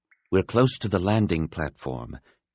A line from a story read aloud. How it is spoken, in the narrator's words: Depa announced quietly